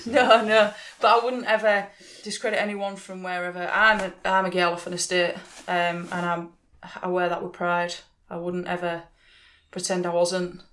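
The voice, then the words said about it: Very strong regional accent. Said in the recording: “My accent is very strong.”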